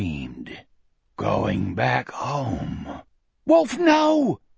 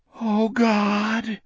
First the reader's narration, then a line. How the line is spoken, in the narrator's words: Jack moaned